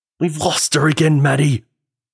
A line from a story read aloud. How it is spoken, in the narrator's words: he screamed